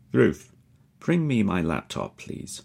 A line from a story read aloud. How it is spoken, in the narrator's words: he says